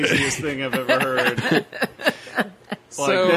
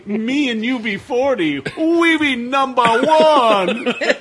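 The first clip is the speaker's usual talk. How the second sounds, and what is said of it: Exaggerated bad fake Jamaican accent. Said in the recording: “that is the most fucked up accent I've heard ... That Jamaican accent is more racist than this bootleg Bart Simpson t-shirt I have ... Yeah, it's really bad ... he's already got like a villain's voice”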